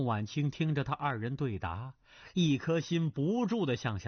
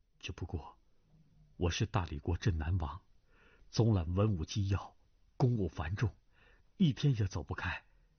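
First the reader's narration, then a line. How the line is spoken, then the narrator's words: Soft, gentle. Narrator (Chinese): 只听段正淳柔声道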